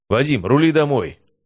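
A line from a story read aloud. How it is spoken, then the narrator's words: Shout. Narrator (Russian): крикнул Федулов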